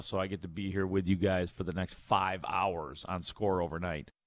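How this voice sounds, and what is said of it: Slightly crusty, rough voice. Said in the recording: “My voice is a little bit crusty, little bit, because I've got a little bit of a cold”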